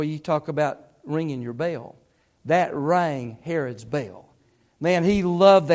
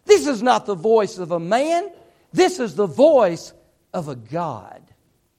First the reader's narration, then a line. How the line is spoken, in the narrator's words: they begin to shout out to him